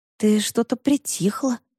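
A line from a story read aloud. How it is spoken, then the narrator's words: Whispered. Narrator (Russian): шепнула Вара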